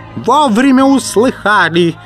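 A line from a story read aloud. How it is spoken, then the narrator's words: Yelling over noise. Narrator (Russian): завопил он, перекрывая шум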